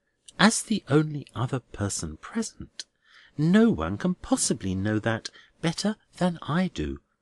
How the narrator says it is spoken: returned the Minor Canon very quietly

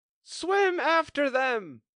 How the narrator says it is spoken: screamed the Griffin

